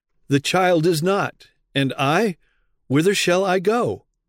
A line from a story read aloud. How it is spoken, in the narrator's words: In alarm and self-reproach, he exclaiming